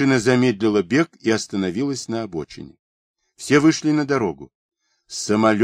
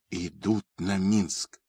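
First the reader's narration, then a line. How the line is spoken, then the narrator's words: Whisper. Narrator (Russian): прошептал генерал Чумаков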